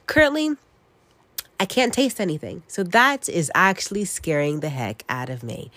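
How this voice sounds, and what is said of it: Nasal, congested voice. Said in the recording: “I sound so nasally ... I am having the flu”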